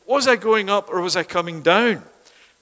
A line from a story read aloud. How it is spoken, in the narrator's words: she shouted